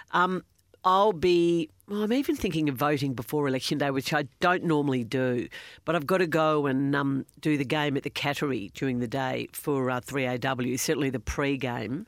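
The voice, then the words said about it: Congested voice from a cold. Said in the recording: “Excuse my voice. I'm still a little bit coldy, got a shocking cold.”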